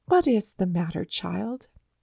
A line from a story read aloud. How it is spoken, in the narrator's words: Grandmother said